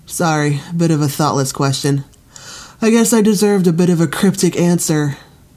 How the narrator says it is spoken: Sunny yawned

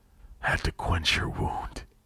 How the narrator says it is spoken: he rasped

